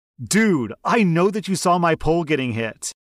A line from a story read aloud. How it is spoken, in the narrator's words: he yells